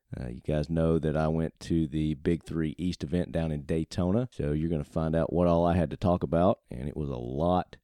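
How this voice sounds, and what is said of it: Worn, strained voice. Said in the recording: “as you guys can probably tell by my voice, I have been doing a lot of talking over the last few days”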